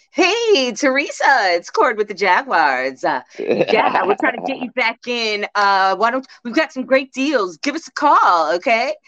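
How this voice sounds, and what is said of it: Imitates a ticket sales caller's voice. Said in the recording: “my impression”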